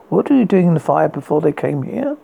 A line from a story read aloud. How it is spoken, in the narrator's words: He asked, pausing in a casual tone